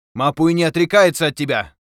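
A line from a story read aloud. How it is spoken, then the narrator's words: Shout. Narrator (Russian): крикнул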